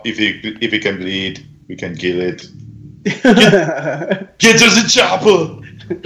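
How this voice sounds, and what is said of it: Impression of a movie action star. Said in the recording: “a really good Arnold Schwarzenegger impression”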